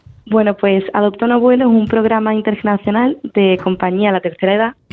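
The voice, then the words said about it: Sevillian Andalusian Spanish accent. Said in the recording (Spanish): “tú gallega no eres, ¿eh? Con, esa, con ese acento ... soy sevillana”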